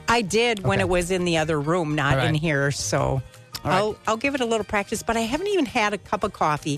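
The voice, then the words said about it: Out of breath speaking. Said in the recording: “I'm out of breath.”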